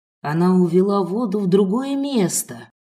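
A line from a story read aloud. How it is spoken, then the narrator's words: Sorcerer hissing. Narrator (Russian): прошипел колдун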